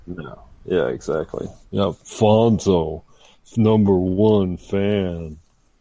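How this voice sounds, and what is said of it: Imitates another person's voice. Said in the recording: “is that your accent? Who are you impersonating there”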